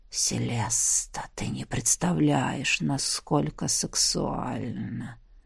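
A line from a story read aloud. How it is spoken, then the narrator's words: Low quiet whisper, close. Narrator (Russian): Низкий тихий шепот коснулся моего уха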